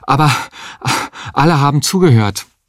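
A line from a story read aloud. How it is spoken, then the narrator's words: Panting. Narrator (German): sagte er keuchend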